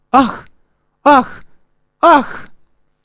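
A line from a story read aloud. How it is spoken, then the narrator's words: Crying out. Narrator (Russian): Она … вскрикнула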